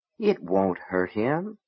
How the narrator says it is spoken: Gaunt said softly

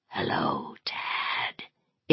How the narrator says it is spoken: it whispered in its rotting voice

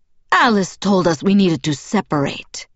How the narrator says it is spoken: Zafrina answered in the rough, deep voice that matched her wild appearance

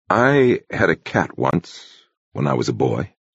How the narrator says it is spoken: the abbot murmured slowly

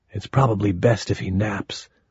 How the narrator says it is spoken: Lady whispered

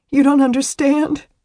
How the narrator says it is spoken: she sobbed into his chest

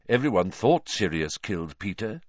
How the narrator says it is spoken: said Lupin

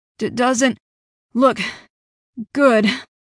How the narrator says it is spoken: Alex panted beside me

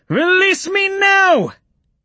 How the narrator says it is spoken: She shouted back

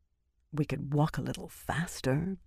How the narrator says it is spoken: Birgitta muttered, not quite far enough under her breath

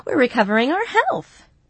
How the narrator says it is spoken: she laughed

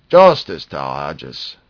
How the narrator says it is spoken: exclaimed Lorcus Tomal

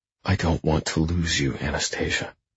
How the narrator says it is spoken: I murmur

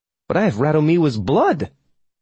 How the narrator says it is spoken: I spluttered

